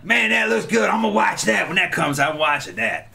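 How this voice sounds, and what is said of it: Imitation of speaker's father's voice. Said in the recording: “I do the voice, my dad's voice.”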